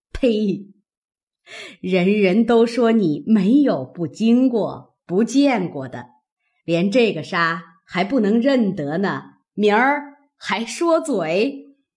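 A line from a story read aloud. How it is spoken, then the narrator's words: Laughing. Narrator (Chinese): 贾母笑道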